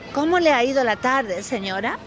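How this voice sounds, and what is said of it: Clean, well-enunciated Castilian Spanish accent. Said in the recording (Spanish): “bonito el acento que tenéis, así, limpio ... bien vocalizado ... castellano ... Yo también lo puedo hacer así”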